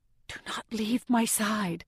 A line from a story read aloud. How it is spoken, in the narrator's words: say under my breath